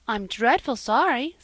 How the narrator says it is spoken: said Mrs

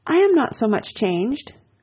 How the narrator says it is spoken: cried Anne, and stopped, fearing she hardly knew what misconstruction

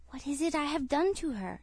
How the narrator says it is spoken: whispered

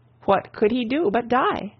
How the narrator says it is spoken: exclaimed

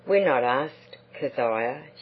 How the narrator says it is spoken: she said sadly

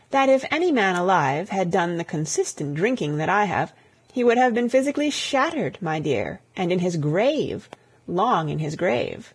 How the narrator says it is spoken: her voice sang on a confidential note

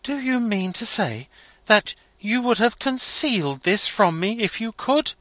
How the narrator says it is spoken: he exclaimed

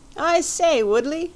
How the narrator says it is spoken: he cried

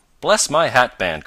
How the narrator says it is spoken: cried Mr

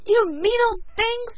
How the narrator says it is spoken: screamed Billy

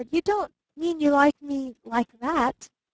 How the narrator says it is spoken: he stammered

